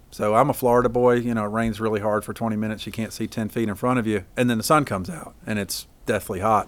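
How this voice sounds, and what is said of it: Slight Southern twang. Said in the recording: “I lived in Florida in the South most of my life, and hence the little twang that I've got”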